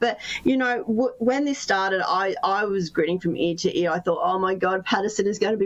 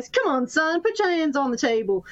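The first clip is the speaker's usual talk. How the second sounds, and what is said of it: Put-on accent. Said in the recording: “I've done my first and only accent. I'm never doing it again. Please don't hate me.”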